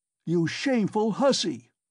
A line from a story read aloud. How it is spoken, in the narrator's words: he shouted suddenly at the top of his voice